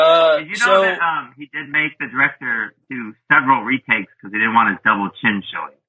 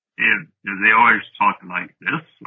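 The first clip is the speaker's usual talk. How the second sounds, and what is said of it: Deep, lowered actor's voice. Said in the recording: “my Gregory Peck impression ... you just look concerned and then have a lower voice ... That's not bad. Dude, that is not bad.”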